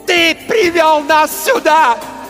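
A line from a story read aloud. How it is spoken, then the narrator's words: Screaming. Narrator (Russian): вопила она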